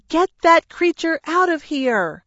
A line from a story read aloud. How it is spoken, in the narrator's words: Mom crouched in the corner of her bedroom, yelling